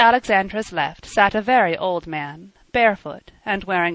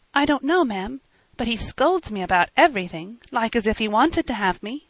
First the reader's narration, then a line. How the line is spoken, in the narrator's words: the poor child hid her hands under her apron and murmured